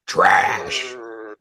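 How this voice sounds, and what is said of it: Growling Braun Strowman impression. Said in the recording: “Braun Strowman-esque promo ... You could do that voice too. You just got to growl.”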